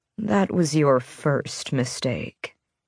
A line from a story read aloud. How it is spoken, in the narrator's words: he sighed